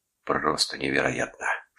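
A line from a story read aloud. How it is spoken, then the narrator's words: Whispered. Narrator (Russian): шептал он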